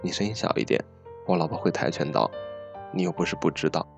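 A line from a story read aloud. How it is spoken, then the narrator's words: Low, slow voice. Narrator (Chinese): 耗子压低声音缓缓道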